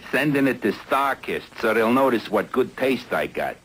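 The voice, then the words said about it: Cartoon fish, Brooklyn accent. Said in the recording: “a low-class tuna with a Brooklyn accent”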